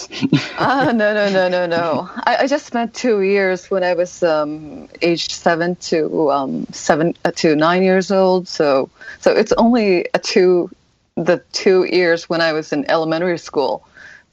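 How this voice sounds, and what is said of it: Fluent American English accent. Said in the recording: “amazing American accent or genuine accent ... the accent is pretty good”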